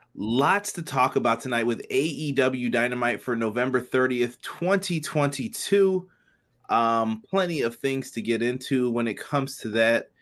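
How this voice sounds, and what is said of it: Very hoarse voice. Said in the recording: “My voice is very hoarse today, not feeling it”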